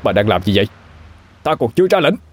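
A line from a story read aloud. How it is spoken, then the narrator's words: Loud shout. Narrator (Vietnamese): Kim Kha hét lớn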